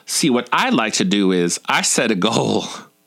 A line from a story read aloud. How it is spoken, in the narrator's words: saying, also in a southern drawl